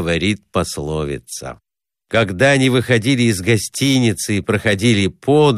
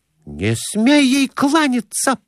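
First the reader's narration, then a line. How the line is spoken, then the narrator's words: Exclaiming. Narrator (Russian): воскликнула Глафира Семеновна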